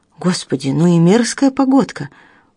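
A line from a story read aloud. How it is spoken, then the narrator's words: Exclaimed. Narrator (Russian): воскликнула доктор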